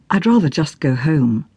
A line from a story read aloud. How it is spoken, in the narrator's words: Kitty murmured